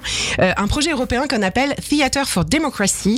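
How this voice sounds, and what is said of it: Impressive English accent on English words. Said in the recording (French): “Oh, quel accent, bravo.”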